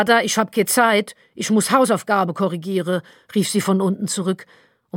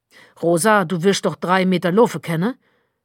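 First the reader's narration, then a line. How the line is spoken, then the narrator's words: Growling. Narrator (German): knurrte Martel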